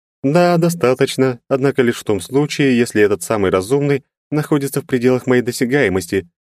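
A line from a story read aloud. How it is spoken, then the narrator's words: Elf's sharp rebuke. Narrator (Russian): резко одернула эльфийка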